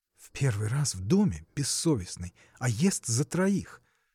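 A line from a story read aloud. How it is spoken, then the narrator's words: Whispered. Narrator (Russian): шепнул Александр Наденьке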